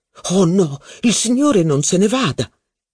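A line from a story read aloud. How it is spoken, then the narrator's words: Waiter exclaiming. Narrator (Italian): esclamò il cameriere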